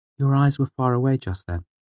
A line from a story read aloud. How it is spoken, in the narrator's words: said